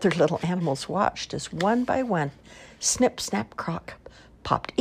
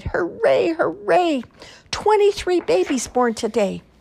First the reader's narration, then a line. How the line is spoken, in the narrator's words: Snip, Snap, Croc was so happy that she smiled, cried